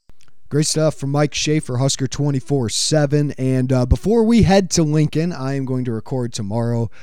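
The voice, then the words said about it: Voice sounds strained, not at its best. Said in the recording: “Hopefully my voice is a little bit better for you guys and for myself.”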